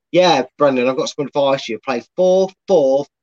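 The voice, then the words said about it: Weak put-on Scottish accent. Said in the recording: “suddenly Scottish. ... I can't do his accent. I never can. It's one of the worst. ... I'm just pretending he's Scottish now.”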